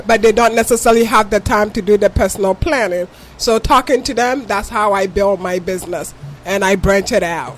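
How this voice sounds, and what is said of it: Ghanaian accent. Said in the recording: “If you can tell from my accent, I'm from Ghana.”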